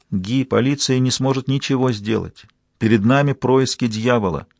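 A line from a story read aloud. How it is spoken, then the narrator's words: Quiet, choked with emotion. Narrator (Russian): Несмотря на душившие ее эмоции, Фаустина тихо сказала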